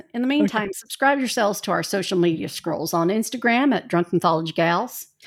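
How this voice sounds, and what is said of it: Put-on Hoosier accent. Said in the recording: “I'll do my Hoosier accent”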